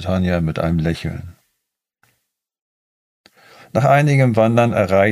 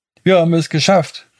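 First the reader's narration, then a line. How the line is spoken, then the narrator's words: Jubilant shout. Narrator (German): rief Inuk jubilierend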